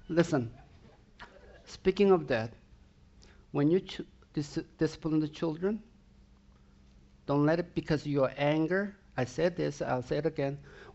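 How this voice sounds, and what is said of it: Swedish accent. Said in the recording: “It's a Swedish accent.”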